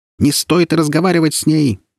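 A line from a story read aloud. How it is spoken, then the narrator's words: Loud parrot shout. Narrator (Russian): громко закричал попугай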